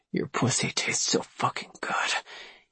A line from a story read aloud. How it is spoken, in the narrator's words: he groaned